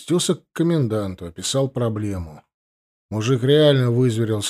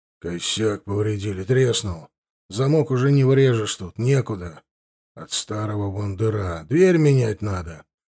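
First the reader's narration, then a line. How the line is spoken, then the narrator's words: Gloomy statement. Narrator (Russian): мрачно констатировал он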